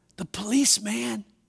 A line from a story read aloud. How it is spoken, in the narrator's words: The little boy whispered